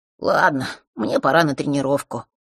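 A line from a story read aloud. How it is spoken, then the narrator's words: Sighing. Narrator (Russian): вздохнув, сказал он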